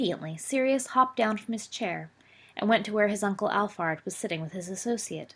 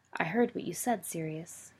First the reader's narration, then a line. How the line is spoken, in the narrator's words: he told the boy, quietly enough that they wouldn't be overheard